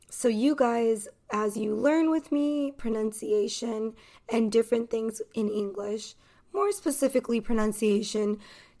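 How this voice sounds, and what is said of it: Neutral Californian American accent. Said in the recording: “I am American. So, this pronunciation is American pronunciation ... my accent, and I am from Los Angeles, California ... the accent is from California and the city of Los Angeles ... It's neutral.”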